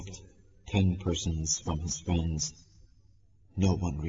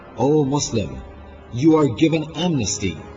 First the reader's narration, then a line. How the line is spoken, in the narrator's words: Muhammad ibn Ash'af cried